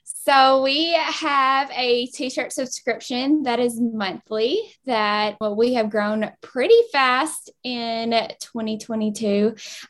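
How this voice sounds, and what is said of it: Southern American Kentucky accent. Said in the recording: “you can tell they're my Southern girls. They're my Kentucky girls with their acts coming in hot with the accent.”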